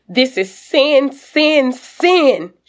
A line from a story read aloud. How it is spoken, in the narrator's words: shouts